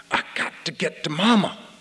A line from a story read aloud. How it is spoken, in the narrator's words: Winston hissed at him